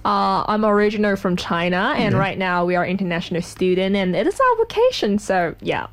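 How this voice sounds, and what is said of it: Non-native English accent. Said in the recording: “I detect a bit of an accent there.”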